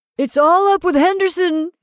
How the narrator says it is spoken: he cried

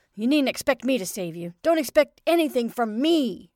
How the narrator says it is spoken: he yelled

